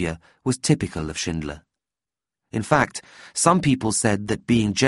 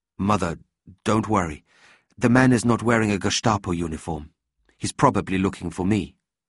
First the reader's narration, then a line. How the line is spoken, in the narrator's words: said Leopold calmly